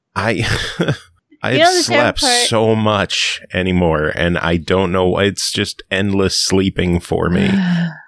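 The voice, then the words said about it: Tired, exhausted-sounding voice. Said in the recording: “You sound very tired.”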